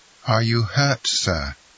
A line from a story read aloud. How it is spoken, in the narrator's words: coldly asked Morel